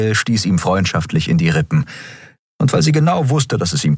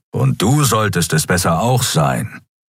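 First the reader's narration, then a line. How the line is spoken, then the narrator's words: Growled. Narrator (German): knurrte Keru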